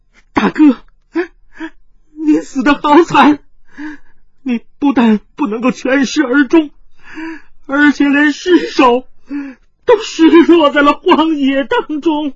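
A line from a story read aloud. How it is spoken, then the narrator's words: Loud wailing sobs. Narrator (Chinese): 一阵热血涌上了心头，云筝翻身扑在地上放声大哭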